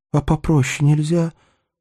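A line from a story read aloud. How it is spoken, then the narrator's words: Pleading. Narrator (Russian): взмолилась Кристина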